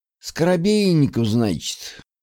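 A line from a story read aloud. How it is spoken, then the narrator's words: Meaningful sigh. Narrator (Russian): Многозначительно вздохнул мужчина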